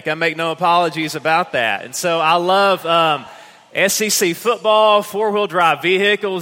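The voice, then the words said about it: East Tennessee Southern accent. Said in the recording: “I'm a hick from the mountains of East Tennessee. You can already tell. ... this accent was forged in the mountains of East Tennessee”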